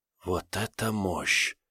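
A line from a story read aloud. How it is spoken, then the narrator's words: Whisper. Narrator (Russian): прошептала появившаяся за спиной Тавра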